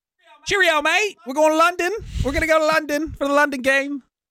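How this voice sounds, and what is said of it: Put-on British accent. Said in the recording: “That's all I can do for that accent”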